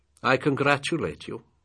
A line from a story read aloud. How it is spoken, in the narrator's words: he said